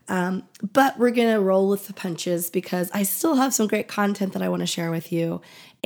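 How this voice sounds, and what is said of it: Scratchy, recovering voice. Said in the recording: “my voice is a little bit scratchy today ... I had been sick the last couple of weeks and just getting my voice back, so it may sound a little bit scratchy”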